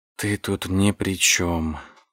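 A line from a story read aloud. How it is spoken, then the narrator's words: Muttered. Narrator (Russian): пробормотал я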